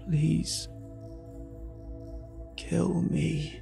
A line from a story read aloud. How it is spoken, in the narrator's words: he wheezed, his pleas reverberating in my mind and reaching my ear simultaneously